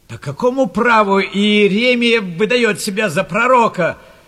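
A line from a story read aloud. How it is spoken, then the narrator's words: Shouting crowd. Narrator (Russian): кричали в толпе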